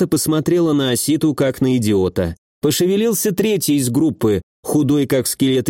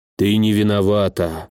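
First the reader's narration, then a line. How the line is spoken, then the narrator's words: Sighed. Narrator (Russian): вздохнул Асита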